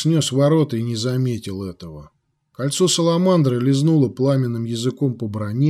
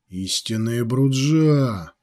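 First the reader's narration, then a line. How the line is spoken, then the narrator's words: Growled. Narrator (Russian): прорычал Джакомо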